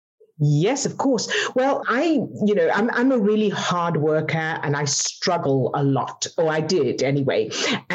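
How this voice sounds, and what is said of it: Non-American foreign accent. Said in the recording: “obviously by accent, you did not start here in the US”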